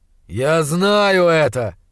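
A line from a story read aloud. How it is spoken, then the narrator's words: Growled, losing control. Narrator (Russian): зарычал в ответ, не в силах больше сдерживаться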